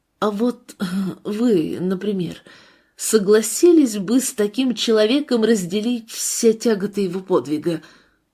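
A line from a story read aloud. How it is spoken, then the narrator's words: Nervous stammering question. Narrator (Russian): Сергей, волнуясь и запинаясь, спросил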